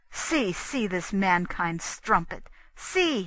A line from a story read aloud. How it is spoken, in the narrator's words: he cried